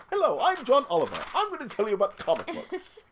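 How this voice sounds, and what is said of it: Bad put-on British accent. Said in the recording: “my terrible British impression ... Bad voice acting”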